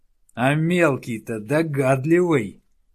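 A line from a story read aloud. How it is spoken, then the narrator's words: Malicious laugh. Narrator (Russian): злобно засмеялся Денте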